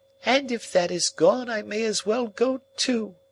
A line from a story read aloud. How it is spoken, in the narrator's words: she wailed